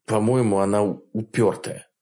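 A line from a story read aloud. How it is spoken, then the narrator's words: Grumbled. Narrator (Russian): проворчал Энн Дювалье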